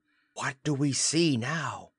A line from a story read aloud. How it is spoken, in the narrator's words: in the awful darkness to whisper